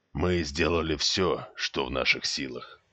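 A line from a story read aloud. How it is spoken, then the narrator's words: Quiet commander's voice. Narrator (Russian): негромко произнес командующий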